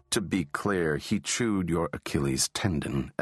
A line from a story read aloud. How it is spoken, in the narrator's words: Ellis said, calmly